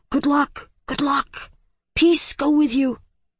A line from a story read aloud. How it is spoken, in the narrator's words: Hari called out softly